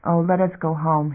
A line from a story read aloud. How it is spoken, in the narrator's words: whispered